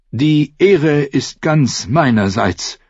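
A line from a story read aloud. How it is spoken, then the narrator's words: Plain. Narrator (German): sagte Sir Desmond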